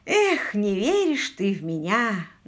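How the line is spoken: Feigned sigh. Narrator (Russian): наигранно вздохнул Квиллер

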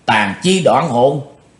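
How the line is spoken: Old demon crying out. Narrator (Vietnamese): bắt độc lão ma kêu lên

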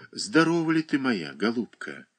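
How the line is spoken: Quiet question. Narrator (Russian): тихо спросила Катерина Александровна

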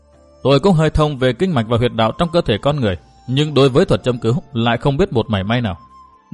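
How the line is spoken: Smiling speech. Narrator (Vietnamese): chàng ta mỉm cười

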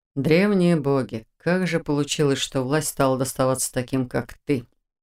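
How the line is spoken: Rueful mutter. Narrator (Russian): Сокрушенно пробормотал он

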